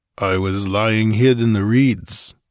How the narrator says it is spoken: grunted the barbarian

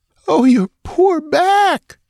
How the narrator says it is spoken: she wailed

